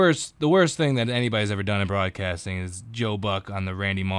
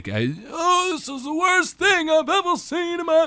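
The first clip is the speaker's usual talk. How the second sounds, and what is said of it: Sportscaster impression, old man voice. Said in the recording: “That's my Buck impression. It sounds like an old man.”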